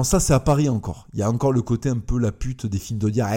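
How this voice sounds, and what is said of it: Usual voice. Nothing is said of it.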